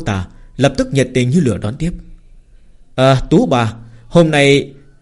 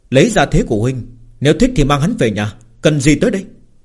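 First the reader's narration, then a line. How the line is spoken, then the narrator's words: Smiling. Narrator (Vietnamese): Lâm Phàm mỉm cười nói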